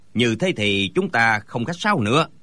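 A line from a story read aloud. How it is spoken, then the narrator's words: Smiling. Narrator (Vietnamese): Gã béo mập lại mỉm cười nói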